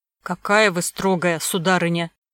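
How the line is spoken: Grumbling. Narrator (Russian): проворчал Жабьев

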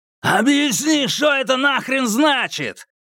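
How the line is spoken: Yelling. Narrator (Russian): заорал Бру Бейкер

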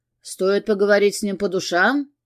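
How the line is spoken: Deep bass voice. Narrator (Russian): пробасил Георг

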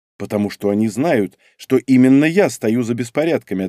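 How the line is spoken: Plain. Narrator (Russian): ответил я

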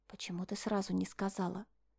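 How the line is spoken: Surprised whisper. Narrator (Russian): Так же шепотом удивилась я

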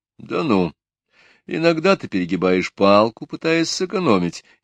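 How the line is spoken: Snide. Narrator (Russian): ехидно отозвался мой шеф

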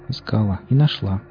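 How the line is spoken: Low-voiced answer. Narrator (Russian): вполголоса ответила Сонька

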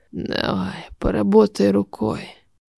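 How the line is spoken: Hoarse rasp. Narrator (Russian): прохрипел Брант

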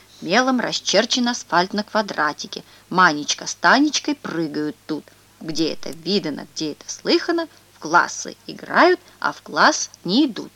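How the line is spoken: Quiet, serious reading. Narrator (Russian): Андрюшка читает дальше, так тихо и серьезно

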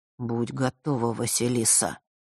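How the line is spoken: Quiet. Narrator (Russian): тихо произнес Миракл

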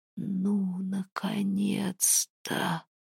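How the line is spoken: Groan. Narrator (Russian): простонал Хлёдвер

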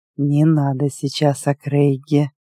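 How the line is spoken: Tense, hoarse, hissing. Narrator (Russian): Голос тигра звучал неожиданно напряженно и хрипло, царапая шипящими звуками

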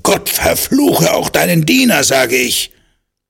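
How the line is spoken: Loud blustering, secretly terrified. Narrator (German): er sich unter seinem lauten, polternden Gehabe zu Tode fürchtete

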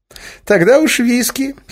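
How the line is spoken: Giggle. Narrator (Russian): хихикнул Эразм

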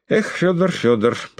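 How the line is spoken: Tired but warm. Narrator (Russian): проговорил он, как показалось Бессонову, устало, но сердечно

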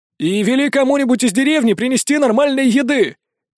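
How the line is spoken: Shouting after someone. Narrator (Russian): крикнул ему вдогонку незнакомец

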